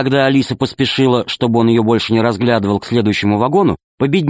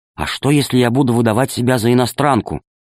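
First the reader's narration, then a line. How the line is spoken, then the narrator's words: Whispered question. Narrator (Russian): спросила археолога шепотом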